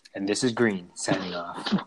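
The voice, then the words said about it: Deep late-night radio voice. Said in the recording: “Why'd you say it like that? ... It's my deep radio voice. ... Late night radio.”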